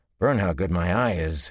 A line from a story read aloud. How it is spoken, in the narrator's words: he growled